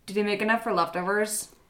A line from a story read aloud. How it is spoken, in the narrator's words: Julie asks